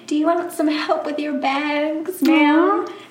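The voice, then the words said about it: Southern accent. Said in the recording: “in the southern accent”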